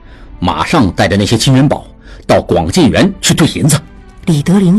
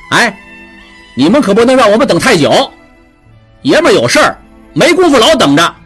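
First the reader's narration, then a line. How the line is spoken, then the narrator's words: Nervous call. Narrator (Chinese): 打头的小混混 有点忐忑地喊了一句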